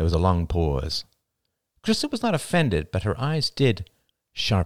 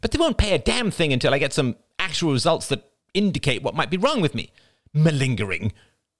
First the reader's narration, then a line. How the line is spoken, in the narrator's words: snapped Crystal